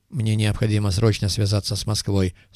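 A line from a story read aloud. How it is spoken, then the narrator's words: Plain. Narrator (Russian): сказал Коперник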